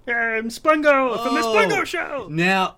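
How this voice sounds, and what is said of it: Animated cartoon character voice. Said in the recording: “I usually don't do the voice ... You're Spungo from, like, the animated show.”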